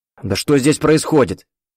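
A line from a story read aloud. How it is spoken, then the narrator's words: Exclaiming. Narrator (Russian): воскликнул Виктор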